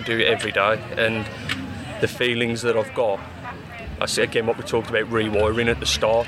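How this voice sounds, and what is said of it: Polish accent, from Warsaw. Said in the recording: “that's a Warsaw accent.”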